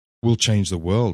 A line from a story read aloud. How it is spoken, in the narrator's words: I said